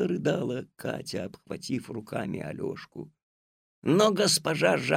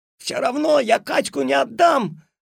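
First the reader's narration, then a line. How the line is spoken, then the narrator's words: Struggling boy shouting. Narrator (Russian): отбиваясь изо всех сил, закричал Алешка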